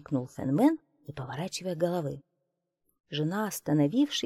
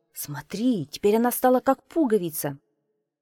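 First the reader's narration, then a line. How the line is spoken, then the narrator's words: Joyful shout. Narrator (Russian): радостно закричал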